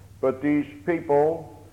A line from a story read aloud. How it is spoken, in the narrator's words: they murmured and they complained